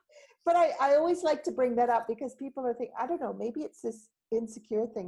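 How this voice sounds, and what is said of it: North American accent with a twang. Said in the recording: “You haven't lost it. You've got that twang. Cowboy. ... Keep the accent. It's lovely. ... I like that twang.”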